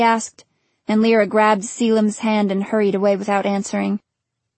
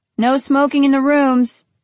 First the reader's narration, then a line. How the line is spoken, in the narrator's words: he called out after them